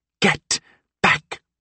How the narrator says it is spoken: Glass hissed

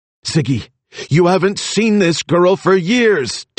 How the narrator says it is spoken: Dino shouted

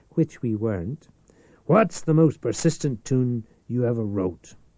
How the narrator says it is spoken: continued smoothly

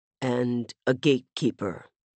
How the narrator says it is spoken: Rami finished softly

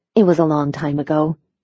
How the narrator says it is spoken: she murmured, hoping to leave it at that

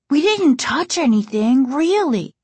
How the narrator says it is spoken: Casey exclaimed

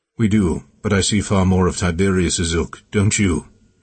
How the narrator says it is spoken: He replied, his voice even

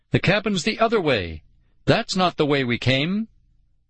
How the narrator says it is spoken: I shouted into the wind

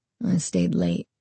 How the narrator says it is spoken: he said quietly

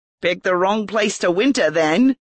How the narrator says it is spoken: the man responded with a chuckle

